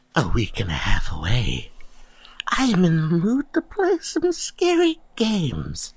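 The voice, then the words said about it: Spooky voice. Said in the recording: “spooky voice”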